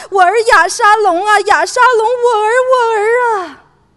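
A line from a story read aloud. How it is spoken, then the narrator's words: King wailing loudly, muffled. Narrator (Chinese): 王蒙着脸大声哭嚎说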